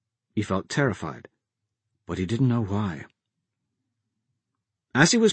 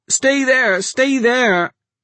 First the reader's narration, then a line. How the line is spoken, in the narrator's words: his mother screamed